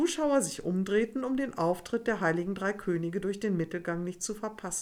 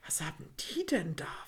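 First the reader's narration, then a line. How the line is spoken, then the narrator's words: Whispered. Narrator (German): flüsterte Alice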